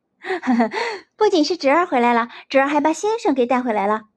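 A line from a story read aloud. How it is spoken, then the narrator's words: Chuckling. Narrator (Chinese): 张飞嘿嘿笑着道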